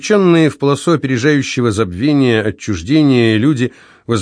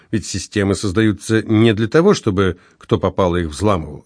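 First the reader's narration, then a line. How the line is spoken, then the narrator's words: Plain. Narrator (Russian): ответил Савва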